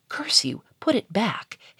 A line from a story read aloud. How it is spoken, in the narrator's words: hissed Charolais